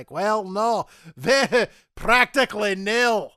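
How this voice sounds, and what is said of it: Scrooge McDuck cartoon character accent. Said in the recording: “I'm drawing on here, James, for this accent? It's Scrooge McDuck. That's what I'm doing. Or possibly Flintheart Glumgold.”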